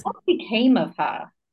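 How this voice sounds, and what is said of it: Put-on English accent. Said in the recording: “That's another thing that needs to be in an English accent, I think.”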